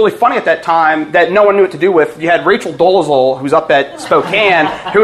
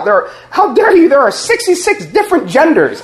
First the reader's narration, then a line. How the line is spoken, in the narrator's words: she blurts out